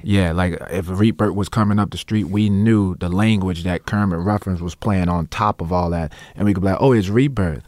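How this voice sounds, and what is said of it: New Orleans accent. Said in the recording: “I speak with my New Orleans accent ... I'll be speaking in the New Orleans accent”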